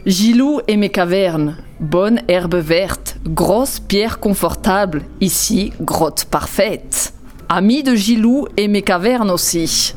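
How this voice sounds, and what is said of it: Caveman voice, odd German accent. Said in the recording (French): “Petit accent allemand quand même ... Petit accent teuton assez curieux ... un homme des cavernes”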